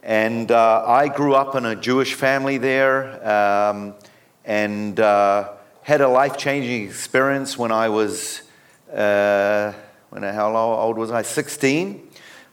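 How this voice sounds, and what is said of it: New Zealand accent. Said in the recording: “I have an accent. I'm originally from New Zealand ... a Kiwi”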